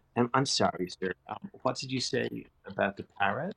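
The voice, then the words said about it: Slight American accent. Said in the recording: “this slight American accent”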